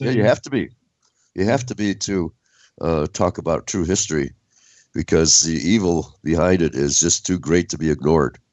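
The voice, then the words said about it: Unwell, impaired voice. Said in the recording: “when my voice is better ... Your voice. You've got a bit of an illness.”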